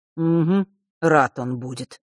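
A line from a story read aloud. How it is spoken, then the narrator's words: Grumbling. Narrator (Russian): пробурчал Миракл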